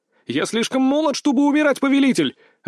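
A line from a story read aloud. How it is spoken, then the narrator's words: Shouting. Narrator (Russian): выкрикнул я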